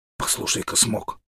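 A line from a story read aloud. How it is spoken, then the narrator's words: Hoarse child's whisper. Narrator (Russian): хриплым голосом зашептал малыш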